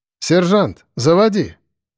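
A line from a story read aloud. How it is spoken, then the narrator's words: Loud. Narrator (Russian): громко сказала она Лене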